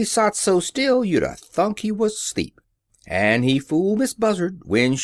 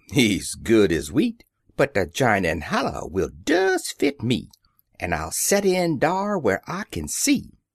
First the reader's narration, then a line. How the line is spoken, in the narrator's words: Brer Rabbit, he chuckle